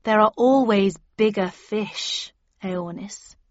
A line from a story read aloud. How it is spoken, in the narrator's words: I said slowly, suddenly realizing who she was